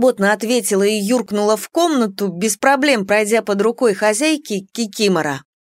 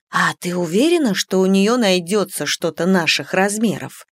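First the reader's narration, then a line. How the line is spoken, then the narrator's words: Whispered question. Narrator (Russian): спросила я шепотом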